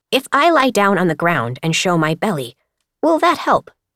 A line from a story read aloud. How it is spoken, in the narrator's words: Mosscap asked